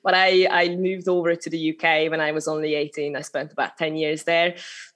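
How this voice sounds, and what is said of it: Hungarian accent. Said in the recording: “I'm originally from Hungary, so that's a little bit of accent still coming through, showing my origins.”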